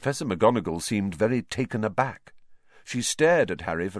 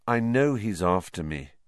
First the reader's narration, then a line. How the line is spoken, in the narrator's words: said Harry wearily